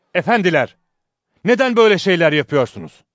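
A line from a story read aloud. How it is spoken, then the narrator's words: Shouting group. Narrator (Turkish): diye bağırdılar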